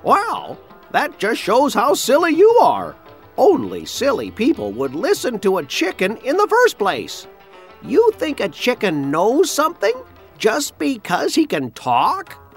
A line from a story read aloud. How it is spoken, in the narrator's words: The chicken cackled and said